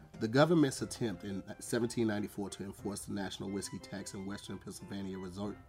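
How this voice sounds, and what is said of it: Accented speech with speech impediment. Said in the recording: “I have a speech impediment ... I have a very short and fat tongue ... And I have an accent, too.”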